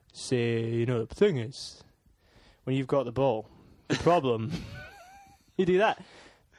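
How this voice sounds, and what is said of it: Imitates another person's voice. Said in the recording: “I'd like to do an Alan Hansen impression.”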